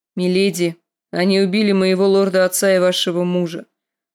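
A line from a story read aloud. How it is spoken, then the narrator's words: Grim. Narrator (Russian): мрачно сказал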